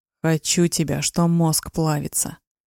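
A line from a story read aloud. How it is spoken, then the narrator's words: Passionate growl. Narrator (Russian): Рычал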